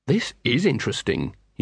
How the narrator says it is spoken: he said

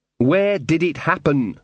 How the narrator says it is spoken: said Magrat, trying to speak slowly and distinctly

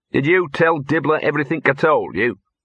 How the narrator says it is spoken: he said

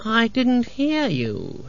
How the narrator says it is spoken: purred

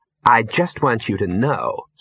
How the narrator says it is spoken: said Ginger coldly

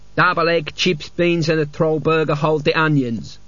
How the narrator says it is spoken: he rasped

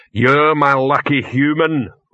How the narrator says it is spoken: Rock boomed

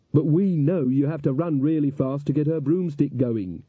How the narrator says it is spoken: shouted Magrat

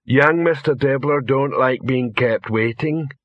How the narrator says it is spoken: said Detritus

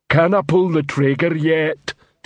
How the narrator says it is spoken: Detritus rumbled into the man's ear

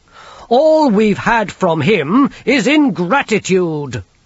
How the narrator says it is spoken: snapped the king

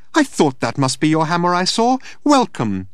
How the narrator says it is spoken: she chirped

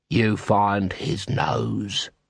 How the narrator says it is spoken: he hissed

